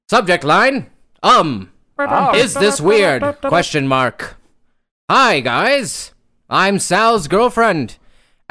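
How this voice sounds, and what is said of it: Put-on transatlantic radio accent. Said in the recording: “in that, like, in the transatlantic radio accent?”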